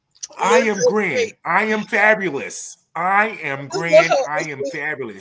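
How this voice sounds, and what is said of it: Put-on voice, sounds like a little white guy. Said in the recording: “It's the tone. ... You sound like a little white guy.”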